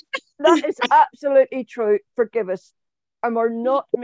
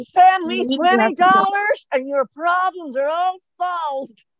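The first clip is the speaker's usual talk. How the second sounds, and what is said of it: Put-on American accent. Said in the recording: “doing this in the American accent”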